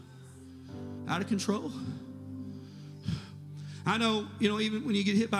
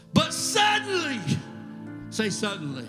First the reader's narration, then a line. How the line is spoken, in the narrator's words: King Nebuchadnezzar shouted